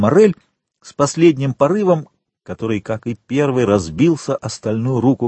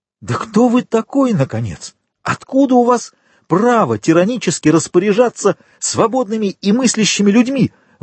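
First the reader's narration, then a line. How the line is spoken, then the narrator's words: Exclaimed. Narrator (Russian): воскликнул Максимилиан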